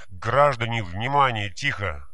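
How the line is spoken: Shouting. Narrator (Russian): закричал он

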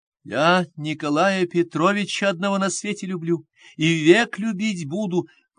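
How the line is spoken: Sudden force, sobbing. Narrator (Russian): проговорила с внезапную силою Фенечка, между тем, как рыдания так и поднимали ее горло

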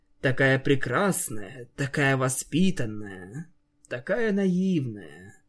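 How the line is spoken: Sighing. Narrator (Russian): Санс вздохнул

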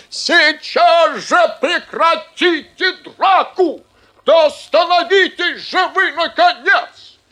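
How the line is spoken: Shouting. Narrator (Russian): Директор закричал

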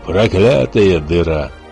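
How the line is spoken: Growled. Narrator (Russian): прорычал гость

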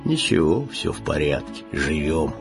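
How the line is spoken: Pensive sad bass. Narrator (Russian): Задумчивый грусть басил

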